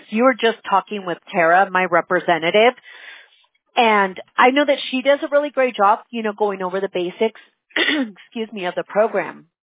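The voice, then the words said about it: Hoarse, fading voice. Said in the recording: “I'm losing my voice over here.”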